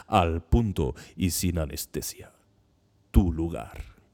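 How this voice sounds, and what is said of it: Exaggerated radio announcer voice. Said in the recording (Spanish): “lo voy a decir con más, con voz de locutor.”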